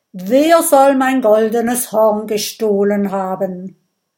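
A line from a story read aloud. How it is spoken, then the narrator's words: Calling out. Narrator (German): ruft Erik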